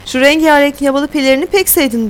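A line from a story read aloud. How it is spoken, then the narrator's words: Laughing. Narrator (Turkish): diye güldü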